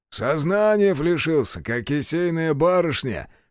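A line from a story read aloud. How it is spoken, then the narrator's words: Chuckling. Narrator (Russian): хохотнул Чекан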